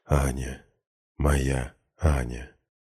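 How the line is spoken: Soft whisper. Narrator (Russian): негромко шепчу

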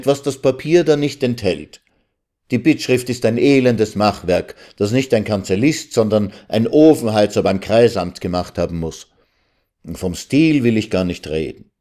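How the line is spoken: Student calling out. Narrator (German): rief der Student

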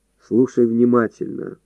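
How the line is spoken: Calm speech. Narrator (Russian): спокойно сказал полковник

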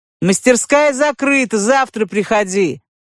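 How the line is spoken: Shouted dismissively. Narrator (Russian): Крикнул ему щука, думая, что подвыпивший клиент перепутал день с ночью

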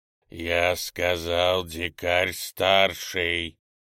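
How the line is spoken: Displeased, through teeth. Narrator (Russian): Недовольно процедил Раникар

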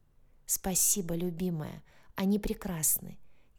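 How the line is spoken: Soft whisper. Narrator (Russian): тихо прошептал он

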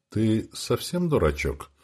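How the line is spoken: Gentle calm question. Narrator (Russian): спросил я Сеньку ласково, без крика и мата

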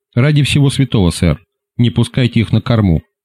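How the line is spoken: Sudden urgent whisper. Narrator (Russian): вдруг зашептал мне на ухо Том Спинг

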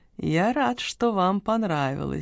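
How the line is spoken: Modest purr. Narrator (Russian): скромно промурлыкал ювелир

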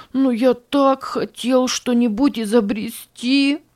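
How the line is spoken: Sobbing. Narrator (Russian): всхлипывал Ричард

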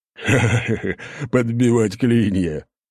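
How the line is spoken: Big man's hearty laugh. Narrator (Russian): расхохотался здоровяк

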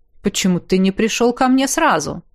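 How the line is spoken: Smirking grunt. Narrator (Russian): Я хмыкнул

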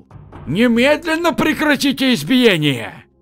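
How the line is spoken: Loud elderly shout. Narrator (Russian): Пожилой худощавый гость заведения громко крикнул

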